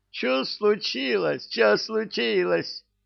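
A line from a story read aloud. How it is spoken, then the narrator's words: Yelling. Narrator (Russian): Орал завхоз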